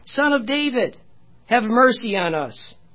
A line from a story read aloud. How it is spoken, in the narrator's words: two blind men followed him, cried out, saying